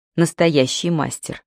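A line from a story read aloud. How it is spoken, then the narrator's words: Calm measured voice. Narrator (Russian): сказала Мэлори, удивляясь, насколько спокойно и размеренно звучит ее голос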